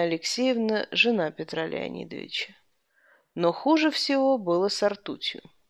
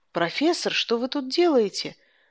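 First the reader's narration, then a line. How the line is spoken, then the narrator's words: Joking exclamation. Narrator (Russian): воскликнешь бывало, чтобы обратить все в шутку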